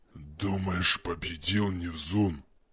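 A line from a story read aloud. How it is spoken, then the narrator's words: Creature hissing. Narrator (Russian): прошипела тварь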